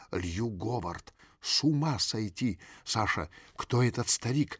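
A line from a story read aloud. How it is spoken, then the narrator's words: Slightly frightened question. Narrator (Russian): немного испуганно спросила свекровь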